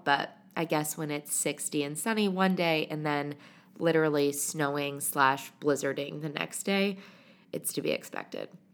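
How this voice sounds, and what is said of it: Congested voice from a cold. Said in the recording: “You can probably hear it in my voice, but I'm currently battling a little bit of a spring cold”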